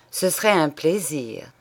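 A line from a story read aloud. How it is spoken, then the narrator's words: Murmured. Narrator (French): murmura le commissaire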